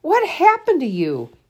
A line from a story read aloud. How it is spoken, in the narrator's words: Charlie exclaimed when he saw the Reverend's red fingertips